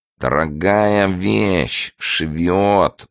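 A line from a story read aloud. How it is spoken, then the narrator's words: Nasal voice. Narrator (Russian): гнусаво сказал он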